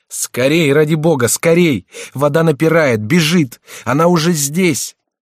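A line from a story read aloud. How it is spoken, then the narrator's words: Shouting. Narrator (Russian): Генрих кричал им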